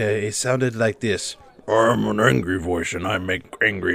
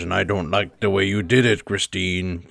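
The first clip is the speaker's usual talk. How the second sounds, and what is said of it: Angry character voice. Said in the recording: “the angry voice who made the voices ... How good is this impression,”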